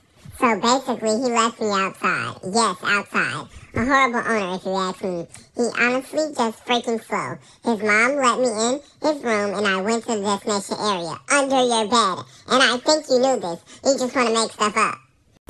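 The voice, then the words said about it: Fake voice for a dog. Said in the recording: “I'm going to use a fake voice to cover up what she's actually saying.”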